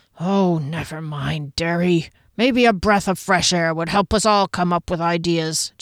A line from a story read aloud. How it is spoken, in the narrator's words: Janik said, his voice hoarse